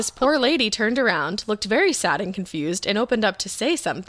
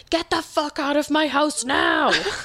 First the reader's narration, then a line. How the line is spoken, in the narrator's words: Dream Kara decided to scream at her